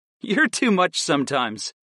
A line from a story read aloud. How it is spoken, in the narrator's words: laughed